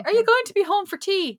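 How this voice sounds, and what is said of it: Poor put-on Northern English accent. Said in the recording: “That's my terrible accent.”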